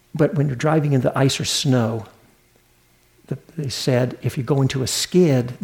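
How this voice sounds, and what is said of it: Southern US accent. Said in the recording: “I'm a Southern boy. Maybe you can hear that in my accent.”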